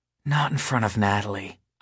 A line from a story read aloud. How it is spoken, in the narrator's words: I whisper